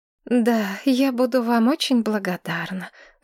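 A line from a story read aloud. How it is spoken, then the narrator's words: Sighing. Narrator (Russian): вздохнула Мэтчен Садден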